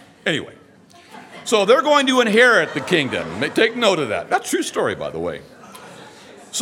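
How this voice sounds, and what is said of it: Usual voice. Nothing is said of it.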